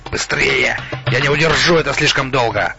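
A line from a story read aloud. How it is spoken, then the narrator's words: Strained strangled hiss. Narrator (Russian): Восточник сдавленным напряженным голосом прошипел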